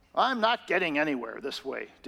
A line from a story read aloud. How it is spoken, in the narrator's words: David grumbled to himself